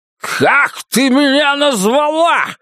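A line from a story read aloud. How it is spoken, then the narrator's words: Shouting. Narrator (Russian): закричал он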